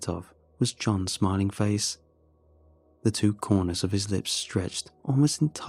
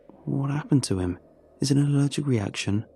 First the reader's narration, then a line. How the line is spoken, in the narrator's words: I asked